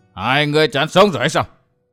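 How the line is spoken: Harsh shout. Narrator (Vietnamese): Đầu lâu bảo chủ quát

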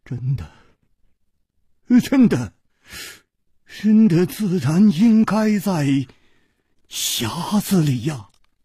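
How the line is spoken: Trembling voice. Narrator (Chinese): 公子金半花的面色又变了，他颤声说

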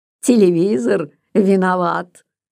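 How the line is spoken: Mocking question. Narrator (Russian): насмешливо спросил инженер

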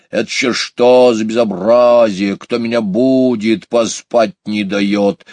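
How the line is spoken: Angry grumbling. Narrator (Russian): сердито заворчал еж

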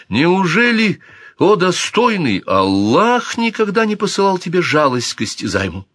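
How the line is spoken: Exclaimed, unable to hold back. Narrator (Russian): не выдержав, он воскликнул

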